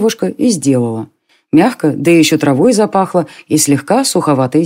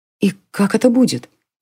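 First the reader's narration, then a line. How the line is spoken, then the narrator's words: Whispering. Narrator (Russian): прошептала Селена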